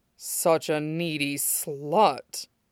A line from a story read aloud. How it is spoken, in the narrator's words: he murmured, half insult and half awe